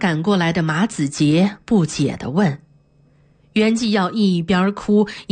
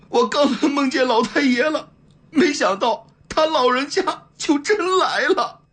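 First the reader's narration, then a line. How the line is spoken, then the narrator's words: Bursting into tears. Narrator (Chinese): 他哇的一声就哭了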